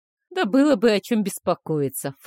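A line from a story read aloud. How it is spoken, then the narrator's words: Dismissive snort. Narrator (Russian): фыркнул Стеллер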